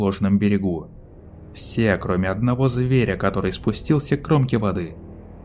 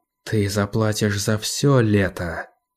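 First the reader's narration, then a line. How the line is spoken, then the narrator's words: Threatening whisper. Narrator (Russian): прошептала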